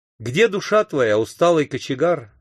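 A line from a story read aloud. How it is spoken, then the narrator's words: Plain question. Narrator (Russian): спросил я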